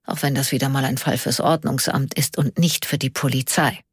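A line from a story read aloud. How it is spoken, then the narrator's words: Quiet murmur. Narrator (German): murmelte er leise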